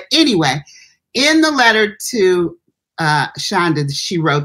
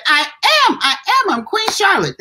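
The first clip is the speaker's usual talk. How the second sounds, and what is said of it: Imitates a little girl's voice. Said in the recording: “That's my impression of the little girl.”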